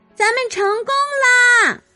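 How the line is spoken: Shouted. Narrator (Chinese): 马蒂娜叫道

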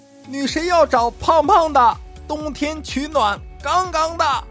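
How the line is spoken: Crowd cheering in unison. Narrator (Chinese): 台下呢一片欢呼，齐声喊道

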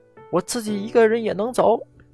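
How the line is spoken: Shouted back. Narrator (Chinese): 我回头冲他们喊

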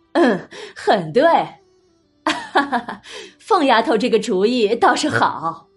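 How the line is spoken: Laughing. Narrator (Chinese): 又是大笑，邢夫人、王夫人都说

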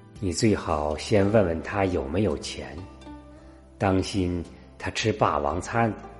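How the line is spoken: Cool, offhand. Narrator (Chinese): 淡淡的…说

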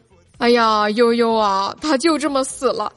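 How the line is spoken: Crying. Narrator (Chinese): 哭着说道

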